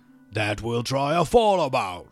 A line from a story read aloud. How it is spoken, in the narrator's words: roared the troll again